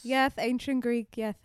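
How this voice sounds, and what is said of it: Speaks with an exaggerated lisp. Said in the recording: “I didn't know that the Greeks all had lisps ... hit that th there ... I thought that I was proving that I was from there by having a lisp”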